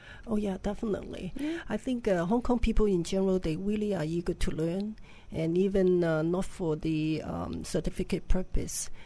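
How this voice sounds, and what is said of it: Hong Kong English accent. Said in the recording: “you're coming from Hong Kong, aren't you? ... From the accent is a giveaway”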